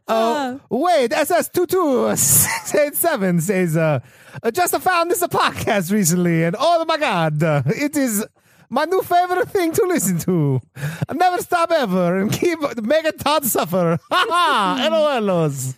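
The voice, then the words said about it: Put-on Italian accent. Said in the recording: “accent. ... I'm going to choose Italian. ... I'm doing Italian.”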